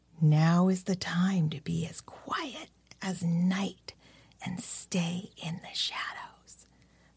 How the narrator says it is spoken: he whispered

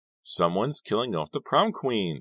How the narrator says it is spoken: snapped Dawn

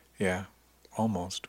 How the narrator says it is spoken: he said quietly

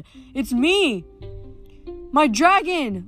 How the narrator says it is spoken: Leo yelled

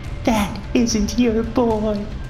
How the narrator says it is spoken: Macy whimpered, her voice muffled by the man's mid-sized hand

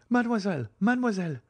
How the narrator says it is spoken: exclaimed a voice from behind the trees

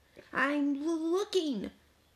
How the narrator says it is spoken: Cow stammered

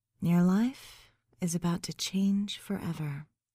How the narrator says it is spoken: I whispered

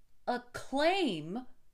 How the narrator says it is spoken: I cried

